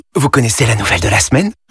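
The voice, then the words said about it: Whispering. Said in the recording (French): “pourquoi chuchotez-vous ? ... ne le dites pas trop fort”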